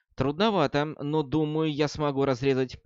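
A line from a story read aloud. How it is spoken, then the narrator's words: Plain. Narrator (Russian): ответила Анна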